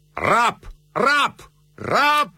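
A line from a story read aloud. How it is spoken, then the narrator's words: Shouting. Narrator (Russian): кричал Бертье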